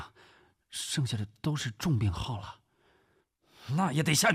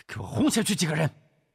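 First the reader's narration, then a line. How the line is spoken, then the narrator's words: Shouting. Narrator (Chinese): 古正文大喊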